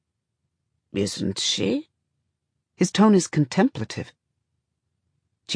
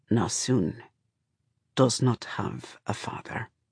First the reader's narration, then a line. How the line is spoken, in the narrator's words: Shafa says softly